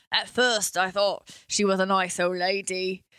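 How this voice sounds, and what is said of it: Put-on Cockney British accent. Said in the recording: “You're doing it like a Cockney British person again.”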